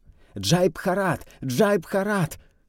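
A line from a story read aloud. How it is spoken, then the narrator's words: Distant shout. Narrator (Russian): Голос в конце ряда выкрикнул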